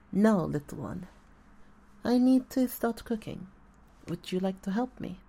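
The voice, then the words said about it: Orc character voice, Russian-tinged accent. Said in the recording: “the orc accent was pretty shit ... kind of did a bit of a Russian tint to it”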